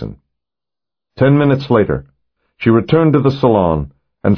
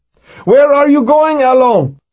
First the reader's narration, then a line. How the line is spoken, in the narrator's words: shouted one of Lev's men